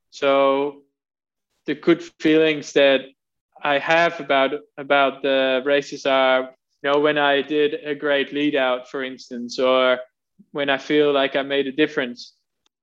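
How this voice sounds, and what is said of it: Slight Australian accent. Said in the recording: “that slight hint of an Australian accent that you have”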